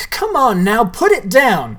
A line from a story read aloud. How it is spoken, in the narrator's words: shouted Sawyer